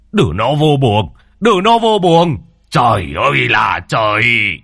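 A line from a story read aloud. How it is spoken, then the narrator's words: Shouting. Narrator (Vietnamese): ông ngoại quát lên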